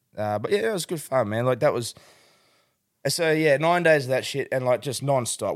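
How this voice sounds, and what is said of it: Worn-out, strained voice. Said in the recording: “like my voice is a bit stuck ... I'm knackered”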